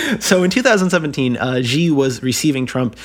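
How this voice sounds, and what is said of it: Usual voice. Nothing is said of it.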